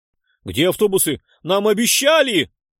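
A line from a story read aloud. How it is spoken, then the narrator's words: Hysterical yelling. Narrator (Russian): Истерично вопил краснолицый мужчина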